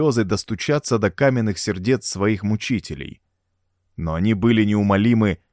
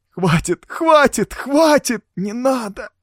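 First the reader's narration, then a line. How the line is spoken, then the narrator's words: Muffled sobbing. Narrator (Russian): всхлипывал человек в черном, уткнувшись лицом в мокрый от слез ковер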